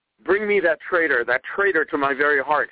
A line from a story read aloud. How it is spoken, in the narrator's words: he cried